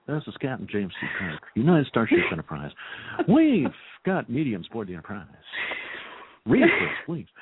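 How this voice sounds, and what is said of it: Impression of Captain Kirk. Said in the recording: “I was making you crack up with all my impersonations before the show”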